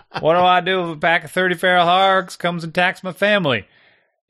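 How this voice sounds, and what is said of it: Put-on accent. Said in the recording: “I apologize for my accent. That just started happening.”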